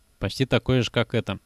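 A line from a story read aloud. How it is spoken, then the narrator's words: Plain. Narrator (Russian): сказал я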